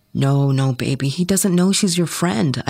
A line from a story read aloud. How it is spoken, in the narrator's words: I whispered back